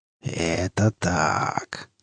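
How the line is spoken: Pleased hiss. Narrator (Russian): довольно прошипела Химера

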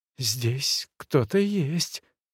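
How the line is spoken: Whispered. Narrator (Russian): прошептала она

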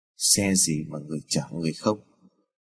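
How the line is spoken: Muttering. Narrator (Vietnamese): người đón xe bên đường lẩm bẩm

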